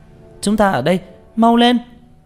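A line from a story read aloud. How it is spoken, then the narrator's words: Shouting. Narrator (Vietnamese): Tranh Tử la lên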